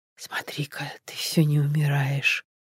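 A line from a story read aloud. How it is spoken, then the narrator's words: Whispering. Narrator (Russian): донесся до него шепот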